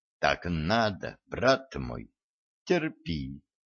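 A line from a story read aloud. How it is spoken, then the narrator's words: Barely audible whisper. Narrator (Russian): еле слышно прошептал вампир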